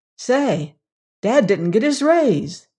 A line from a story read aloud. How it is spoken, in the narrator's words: said Theodora, to add cheerfully